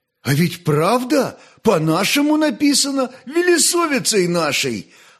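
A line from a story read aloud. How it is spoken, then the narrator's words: Joyful exclamation, young dove healer. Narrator (Russian): обрадованно воскликнул молодой знахарь-голубь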